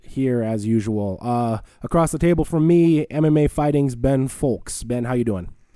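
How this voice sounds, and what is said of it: Hoarse, rough sore-throat voice. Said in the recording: “if it sounds like I've been up all night smoking darts and shooting whiskeys ... I've got a little throat thing going on”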